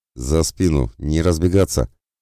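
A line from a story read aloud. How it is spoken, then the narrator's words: Bellowing at full volume. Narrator (Russian): гаркнул Эллен, что есть мочи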